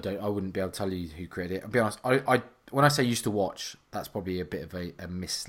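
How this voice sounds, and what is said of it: Usual voice. Nothing is said of it.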